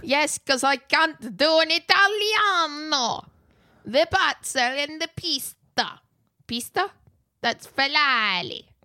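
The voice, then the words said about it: Poor put-on Italian accent. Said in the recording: “That was such a problematic accent.”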